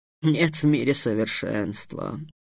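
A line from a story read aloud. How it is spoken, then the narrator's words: Sighing. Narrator (Russian): вздохнул Хамуд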